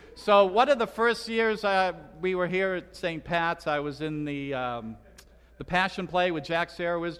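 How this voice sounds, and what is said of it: Slight Boston accent. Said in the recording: “I'm originally from Boston... I'm told I still have a bit of an accent... Pontius Pilate had a Boston accent”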